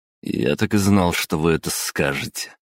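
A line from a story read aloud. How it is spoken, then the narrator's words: Snorting reply. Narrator (Russian): хмыкнул в ответ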